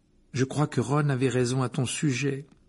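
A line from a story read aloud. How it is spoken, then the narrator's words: Plain. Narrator (French): dit-il au chat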